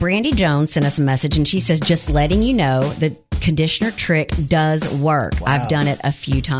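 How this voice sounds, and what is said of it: Usual voice. Nothing is said of it.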